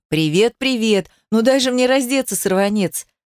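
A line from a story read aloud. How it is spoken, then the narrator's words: Laughing. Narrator (Russian): смеялся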